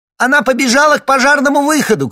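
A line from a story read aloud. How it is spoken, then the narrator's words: Shout from another room. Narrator (Russian): крикнула из приемной Марта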